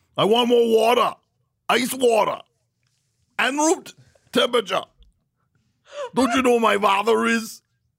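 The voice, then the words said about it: Austrian-accented Schwarzenegger-style impression. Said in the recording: “terrible impression. I think it sounds like Arnold Schwarzenegger.”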